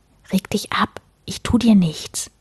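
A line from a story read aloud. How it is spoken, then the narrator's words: Whispered. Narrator (German): flüsterte Sten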